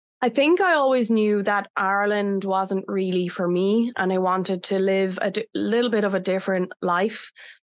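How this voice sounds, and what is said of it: Irish accent. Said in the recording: “I love your accent... you're, Irish.”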